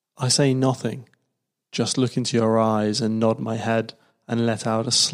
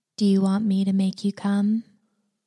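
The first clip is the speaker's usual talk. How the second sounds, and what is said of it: Whispering. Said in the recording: “You lean in and whisper”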